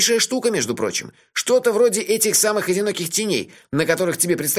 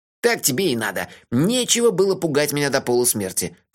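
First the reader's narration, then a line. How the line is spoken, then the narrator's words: Grumbling. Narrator (Russian): проворчал Мелифара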